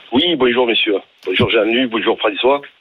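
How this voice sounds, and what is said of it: Southern French Marseille accent. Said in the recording (French): “On se doute à votre accent, vous appelez pas de la région parisienne. ... Les Bouches-du-Rhône.”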